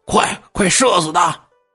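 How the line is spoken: Shouting. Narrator (Chinese): 董恒就喊

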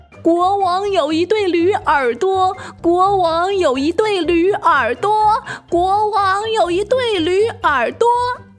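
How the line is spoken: Shouting into a hole. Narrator (Chinese): 理发师对着洞口大声喊

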